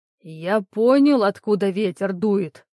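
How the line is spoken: Roaring. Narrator (Russian): проревел он прямо в лицо

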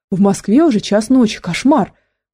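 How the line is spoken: Exclamation. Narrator (Russian): воскликнула Ольга Александровна

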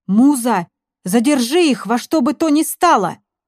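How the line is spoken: Shout. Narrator (Russian): крикнул Шура

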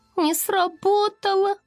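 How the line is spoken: Sad squeak. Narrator (Russian): печально пискнула Локет

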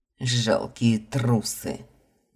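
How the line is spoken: Angry growl. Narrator (Russian): злобно рыкнул

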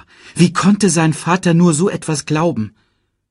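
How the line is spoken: Calling out. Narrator (German): rief Simba

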